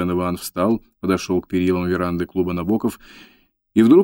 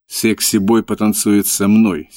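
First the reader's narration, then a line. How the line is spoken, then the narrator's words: Angry. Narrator (Russian): сердито сказала Памела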